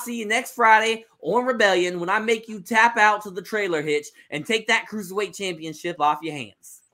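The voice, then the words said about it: A put-on accent, well done. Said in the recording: “this is the best accent you've done.”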